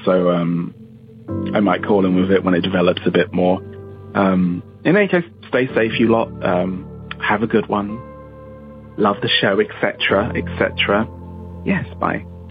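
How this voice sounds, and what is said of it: English accent. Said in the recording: “an English accent ... an English accent just is always so cool to listen to”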